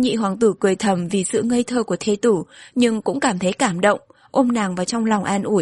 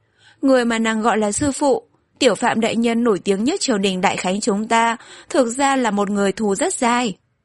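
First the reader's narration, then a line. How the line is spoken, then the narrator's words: Sarcastic. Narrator (Vietnamese): Hắn mỉa mai nói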